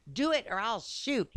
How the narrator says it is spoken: he cried

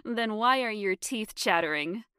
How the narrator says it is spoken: I laughed

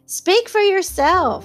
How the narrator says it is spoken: cried Miss Baedeker violently

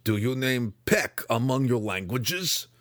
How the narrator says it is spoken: Belwar growled from the door

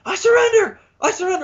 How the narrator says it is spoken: shrieks out

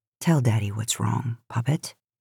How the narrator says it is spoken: murmured

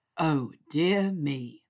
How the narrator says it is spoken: he drawled

